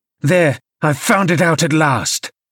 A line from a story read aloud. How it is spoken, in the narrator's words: cried Hindley